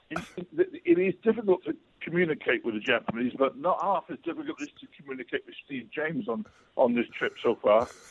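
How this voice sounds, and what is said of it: Welsh accent. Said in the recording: “in a Welsh accent, that just sounded beautiful”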